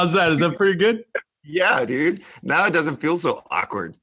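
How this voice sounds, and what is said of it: Usual voice. Nothing is said of it.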